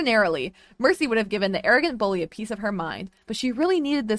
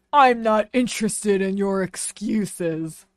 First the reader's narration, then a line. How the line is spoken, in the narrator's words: Reaper snarled